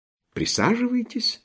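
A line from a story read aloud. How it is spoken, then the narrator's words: Kind, gentle offer. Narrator (Russian): ласково предложил фельдкурат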